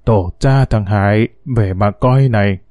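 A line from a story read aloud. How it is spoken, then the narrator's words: Old man muttering, smiling. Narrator (Vietnamese): Lão Sáu mỉm cười lão lẩm bẩm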